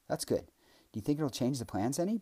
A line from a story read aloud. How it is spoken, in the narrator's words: Bujum asked